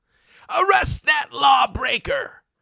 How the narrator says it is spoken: screamed Gessler

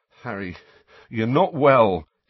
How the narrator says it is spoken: he said shakily

